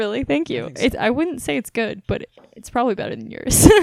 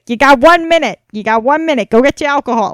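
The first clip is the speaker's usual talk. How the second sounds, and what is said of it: Put-on Boston accent. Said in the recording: “your Boston accent's better than mine.”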